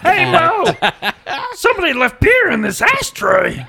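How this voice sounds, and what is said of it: Marge Simpson cartoon voice impression. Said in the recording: “I have a really good Marge Simpson impression. ... She sounds like a crack. ... If Marge smoked a bowl.”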